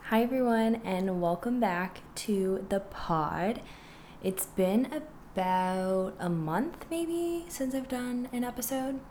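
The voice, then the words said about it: Sick voice, sore throat. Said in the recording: “my voice is like really not it right now. I'm pretty sick and my throat is very sore.”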